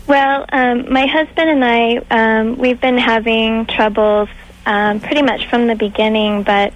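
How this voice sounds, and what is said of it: Very young-sounding girlish voice. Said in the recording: “that girl voice ... Not little girl ... you're very young voice”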